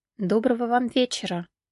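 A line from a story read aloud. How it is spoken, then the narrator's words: Quiet. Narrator (Russian): негромко проговорила она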